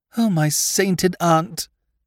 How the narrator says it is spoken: he moaned

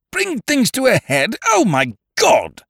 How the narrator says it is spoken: cried Lord Yardley

